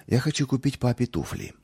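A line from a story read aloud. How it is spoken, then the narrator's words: Timid. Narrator (Russian): робко проговорил он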